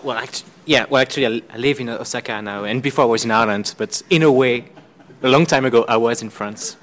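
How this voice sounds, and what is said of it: French accent. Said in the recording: “he actually has a French accent”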